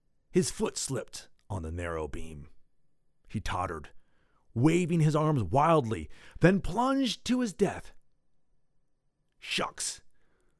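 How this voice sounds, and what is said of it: Dramatic storytelling voice. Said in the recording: “I'll do my best dramatic voice”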